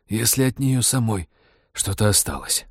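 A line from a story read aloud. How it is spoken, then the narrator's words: Hoarse rasp. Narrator (Russian): прохрипел Роджер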